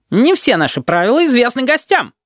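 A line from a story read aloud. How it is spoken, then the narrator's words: Yelled. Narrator (Russian): заорал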